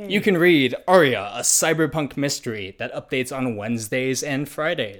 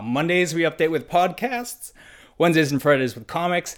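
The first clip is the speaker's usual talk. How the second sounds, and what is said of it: Voice cracks mid-sentence. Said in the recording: “My voice just cracked because I'm going through puberty.”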